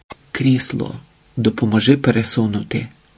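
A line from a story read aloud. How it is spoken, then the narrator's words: Nanny's whisper. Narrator (Ukrainian): прошепотіла нянька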